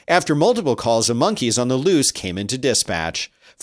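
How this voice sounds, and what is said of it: News anchor reading voice. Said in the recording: “I have to read it in my news voice.”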